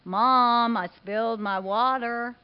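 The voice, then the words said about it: Flat monotone child's voice. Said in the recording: “monotone voice”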